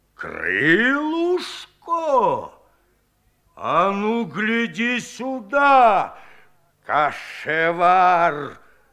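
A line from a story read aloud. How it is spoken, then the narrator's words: Growling. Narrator (Russian): зарычал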